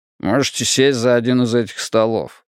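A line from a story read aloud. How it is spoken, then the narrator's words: Grumbling. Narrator (Russian): буркнул он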